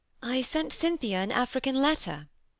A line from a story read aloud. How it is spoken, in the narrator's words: said Molly timidly